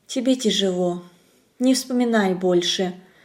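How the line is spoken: Gentle whisper. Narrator (Russian): Зорина ласково прошептала

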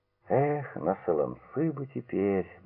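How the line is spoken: Muttered through blue lips. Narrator (Russian): бормотал он посиневшими губами

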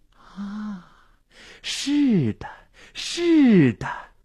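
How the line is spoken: Enraptured murmur. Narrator (Chinese): 心醉神迷的喃喃自语

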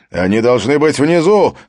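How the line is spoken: Shout. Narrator (Russian): крикнул Хаген

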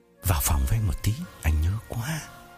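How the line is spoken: Intimate whisper. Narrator (Vietnamese): Phong ghé tai Hằng thì thầm

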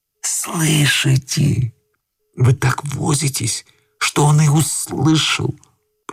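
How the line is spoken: Young man whispering. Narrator (Russian): прошептал молодой человек

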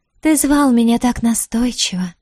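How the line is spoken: Breathed out a question. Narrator (Russian): выдохнула она вопрос

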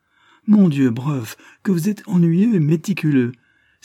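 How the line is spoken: Exclaiming with childlike smile. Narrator (French): s'écria Miss Dane avec son sourire enfantin

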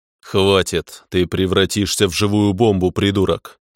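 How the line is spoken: Growl. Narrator (Russian): рыкнул

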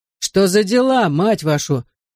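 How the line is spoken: Growled. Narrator (Russian): прорычал один из игроков

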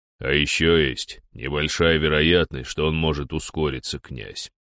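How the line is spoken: Deep bass voice. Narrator (Russian): пробасил Дир

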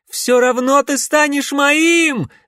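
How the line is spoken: Screaming after someone. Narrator (Russian): вопила Селина ему вдогонку

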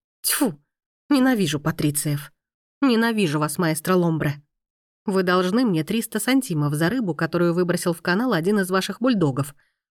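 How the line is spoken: Grumbled. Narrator (Russian): буркнула Мия

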